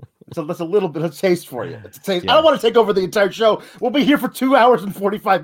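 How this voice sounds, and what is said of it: Usual voice. Nothing is said of it.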